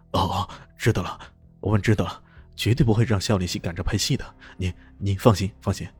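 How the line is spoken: Nervous, hurried. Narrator (Chinese): 老总听得直冒冷汗，连连说道

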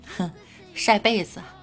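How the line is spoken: Chuckling. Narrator (Chinese): 老师呵呵一笑说

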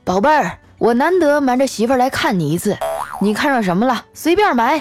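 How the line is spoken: Loud, affectionate. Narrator (Chinese): 我爸大声说

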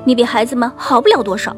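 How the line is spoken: Loud, mother bear. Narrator (Chinese): 熊妈妈大声说

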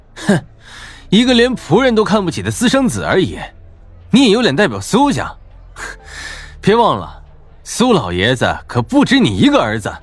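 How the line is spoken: Sneering laugh. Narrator (Chinese): 陈破军嗤笑道

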